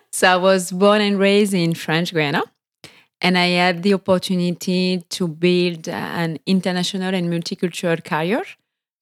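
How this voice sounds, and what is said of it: French accent. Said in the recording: “The accent is due to the fact that I'm French.”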